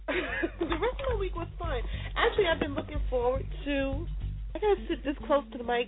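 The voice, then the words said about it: Squeaky voice. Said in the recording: “That squeaky voice.”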